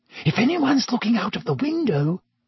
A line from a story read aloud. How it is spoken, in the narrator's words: Hermione squeaked